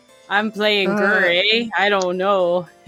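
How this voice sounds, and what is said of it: Attempted Minnesota accent, sounds Canadian. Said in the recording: “the Minnesota accent ... That's more Canada.”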